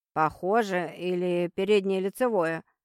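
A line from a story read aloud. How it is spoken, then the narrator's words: Rich booming voice. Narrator (Russian): прогремел сочный голос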